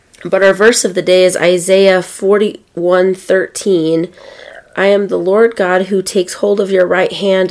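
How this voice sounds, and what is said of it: Squeaky voice from a cold. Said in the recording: “I've got a cold, so as you can tell, I'm kind of squeaky”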